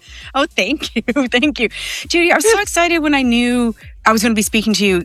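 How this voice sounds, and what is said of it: Mixed Canadian and Irish accent. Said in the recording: “I love your accent. Oh, It's gorgeous. ... It started in Canada, but it's been in Ireland for 25 years plus. ... it's just a mix”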